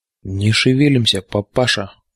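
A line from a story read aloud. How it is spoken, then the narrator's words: Quiet. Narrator (Russian): негромко произнес я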